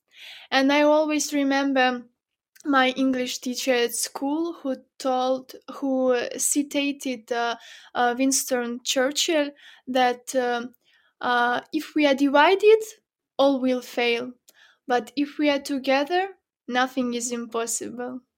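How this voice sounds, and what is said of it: Mixed French, British, Ukrainian accent. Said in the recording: “you seem so British, even in your accent a little bit a mix of French, British, and Ukrainian”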